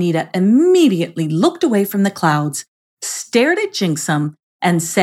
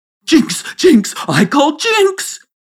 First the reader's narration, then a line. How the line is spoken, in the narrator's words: he shrieked with laughter